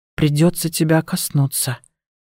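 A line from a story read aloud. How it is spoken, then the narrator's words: Muttering under breath. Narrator (Russian): пробормотала я себе под нос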